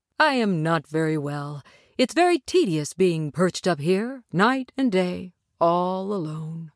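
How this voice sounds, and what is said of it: Deep voice of the scarecrow. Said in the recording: “a deep voice said. ... answered the scarecrow.”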